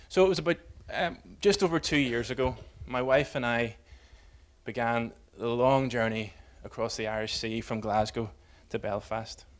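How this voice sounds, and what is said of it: Northern Irish accent. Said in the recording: “that was, you can tell by the accent, that was something of a homecoming for me”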